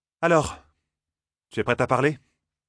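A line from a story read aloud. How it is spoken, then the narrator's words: Curt question. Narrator (French): demanda-t-elle sèchement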